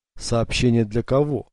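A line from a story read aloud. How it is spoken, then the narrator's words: Plain. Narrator (Russian): спросил он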